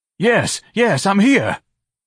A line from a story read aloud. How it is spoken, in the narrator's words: Ignatius cried